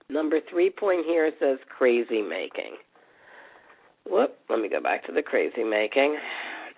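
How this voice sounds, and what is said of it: Slightly hoarse voice. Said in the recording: “I'm sounding a little hoarse... I'm just trying to get over a cold”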